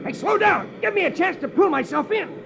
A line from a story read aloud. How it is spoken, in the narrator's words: He shouts